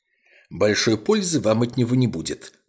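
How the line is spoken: Sharp. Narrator (Russian): резко сказал Мередит Блейк

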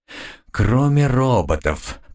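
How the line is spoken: Grumbled. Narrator (Russian): проворчал

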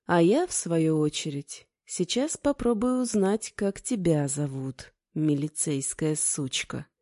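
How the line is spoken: Calm, smirking. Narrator (Russian): Кузнец с усмешкой спокойно добавил

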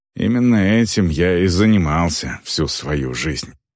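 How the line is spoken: Mutter under breath. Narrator (Russian): пробормотал Варк себе под нос

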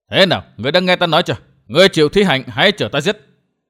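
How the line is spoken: Young man yelling. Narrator (Vietnamese): Không nghe hắc y nhân đáp lời, gã thiếu niên hét

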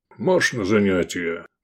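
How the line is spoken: Gruff guard. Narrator (Russian): буркнул стражник

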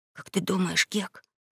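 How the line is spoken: Whisper. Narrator (Russian): начал он шепотом

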